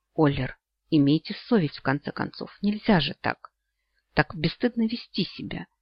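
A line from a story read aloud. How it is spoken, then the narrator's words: Nervous mutter. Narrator (Russian): пробормотала Эрин, сглотнув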